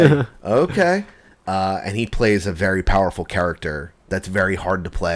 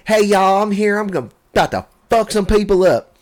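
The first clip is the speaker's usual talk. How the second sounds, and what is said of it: Put-on southern accent. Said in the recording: “he's got like a southern accent.”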